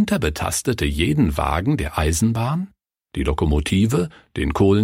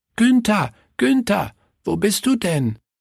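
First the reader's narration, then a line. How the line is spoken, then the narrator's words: Called out. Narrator (German): rief Willi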